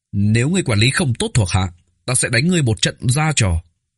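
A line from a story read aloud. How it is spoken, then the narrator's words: Shouting. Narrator (Vietnamese): Thiếu niên kia quát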